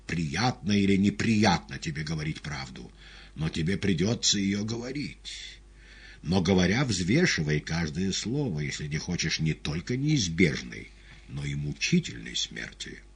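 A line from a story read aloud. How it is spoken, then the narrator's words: Choked angry voice. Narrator (Russian): придушенным злым голосом отозвался Пилат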